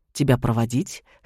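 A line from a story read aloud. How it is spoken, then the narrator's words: Snort. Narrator (Russian): хмыкнул я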